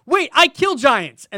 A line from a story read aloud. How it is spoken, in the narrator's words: So she yelled out